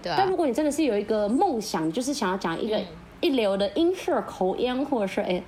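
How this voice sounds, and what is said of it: Odd, increasingly warped intonation. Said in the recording (Chinese): “刚刚怎么怪怪？ ... 你刚才是什么奇怪怪腔怪调？我就问你是越讲越歪调。”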